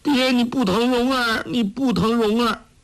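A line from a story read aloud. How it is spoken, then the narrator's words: Crying. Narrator (Chinese): 黄蓉哭道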